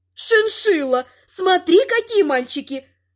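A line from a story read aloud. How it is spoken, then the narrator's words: Old woman's exclamation. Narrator (Russian): воскликнула та, кого называли бабуля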